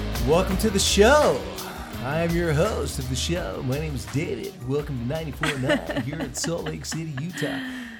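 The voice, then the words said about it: Radio disc jockey voice. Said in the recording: “my radio voice ... that disc jockey ... It's pretty good. You've got that down.”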